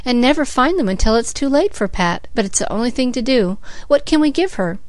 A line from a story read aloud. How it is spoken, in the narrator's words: sighed Cecily